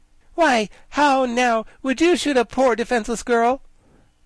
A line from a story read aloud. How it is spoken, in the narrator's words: General Ginger bravely stood her ground and said reproachfully